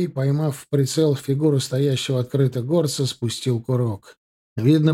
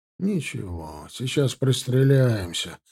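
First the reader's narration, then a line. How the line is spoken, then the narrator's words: Grumbling. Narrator (Russian): проворчал Гончаров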